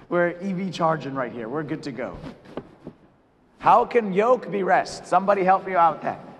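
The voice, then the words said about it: Tired, strained voice. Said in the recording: “my voice is tired ... It hurts a little bit”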